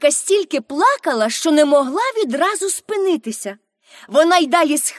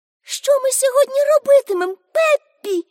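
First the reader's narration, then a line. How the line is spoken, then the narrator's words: Asking after crying. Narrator (Ukrainian): спитала Аніка, коли врешті перестала схлипувати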